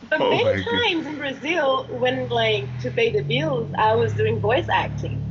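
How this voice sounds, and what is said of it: English with a strong foreign accent. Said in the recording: “accent ... the tougher my accent gets ... my body at this point is rejecting the English”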